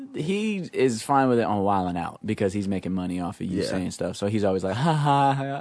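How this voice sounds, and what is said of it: Usual voice. Nothing is said of it.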